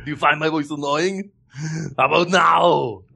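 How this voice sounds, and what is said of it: Arnold Schwarzenegger impression. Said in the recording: “With Arnold Schwarzenegger impression ... in an Arnold Schwarzenegger voice”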